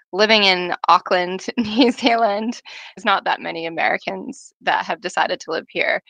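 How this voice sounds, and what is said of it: American accent. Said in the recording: “As you can tell, I'm an American accent.”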